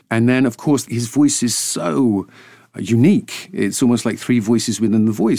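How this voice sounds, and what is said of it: Patrician, authoritative accent. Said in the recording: “the way you normally speak, it's a really suitable accent for any sort of patrician figure or anyone who speaks with an air of authority”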